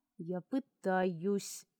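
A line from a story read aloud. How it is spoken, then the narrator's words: Through gritted teeth. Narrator (Russian): процедил сквозь зубы он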